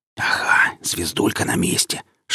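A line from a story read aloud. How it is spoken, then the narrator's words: Whispering voice. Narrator (Russian): шептал голос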